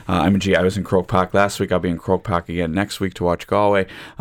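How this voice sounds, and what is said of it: American accent. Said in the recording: “my American accent might belie it a little bit”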